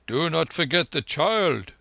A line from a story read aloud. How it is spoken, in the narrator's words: cried the importunate Jat over his shoulder